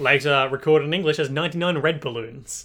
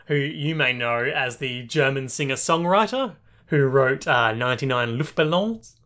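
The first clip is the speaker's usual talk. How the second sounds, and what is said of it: Put-on French accent. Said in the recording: “I don't know why I said that with a French accent.”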